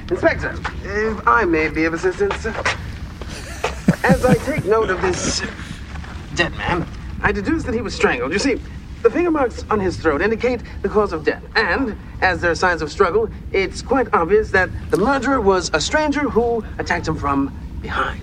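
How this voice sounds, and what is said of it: Deliberately bad put-on accent, blocked-nose. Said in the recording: “that accent? ... All he's doing is not using his nose to breathe. ... the accent is a choice. ... he's doing it intentionally badly.”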